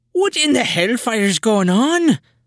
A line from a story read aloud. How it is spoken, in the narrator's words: the good sister howls back